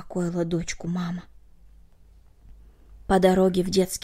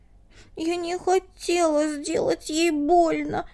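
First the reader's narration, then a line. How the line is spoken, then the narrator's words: Girl sobbing. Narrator (Russian): всхлипнула девочка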